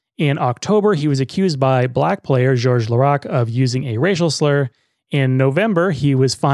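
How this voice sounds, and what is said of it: Usual voice. Nothing is said of it.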